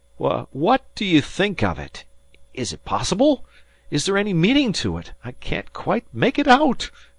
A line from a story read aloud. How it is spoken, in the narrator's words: cried